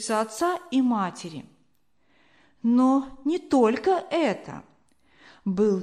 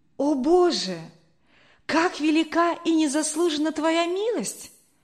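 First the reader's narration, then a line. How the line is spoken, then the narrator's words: Deeply moved exclamation. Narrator (Russian): воскликнул Генрих, глубоко тронутый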